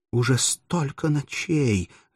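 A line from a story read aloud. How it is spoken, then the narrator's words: Agitated, choked, trembling girl. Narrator (Russian): заговорила взволнованным и полуздавленным голосом молодая девушка, дрожа всем телом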